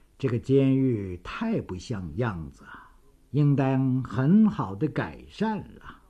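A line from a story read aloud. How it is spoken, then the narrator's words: Muttering to self. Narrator (Chinese): 杨雨婷自言自语着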